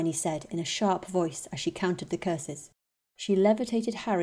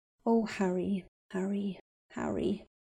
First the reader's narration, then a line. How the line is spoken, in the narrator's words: she murmured under her breath